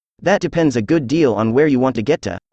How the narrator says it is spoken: said the cat

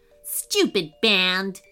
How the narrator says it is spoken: grumbled

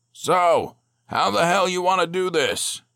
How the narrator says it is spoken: he bellowed

